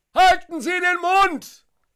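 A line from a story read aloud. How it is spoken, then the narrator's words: Spectator shouting. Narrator (German): ruft einer der Zuschauer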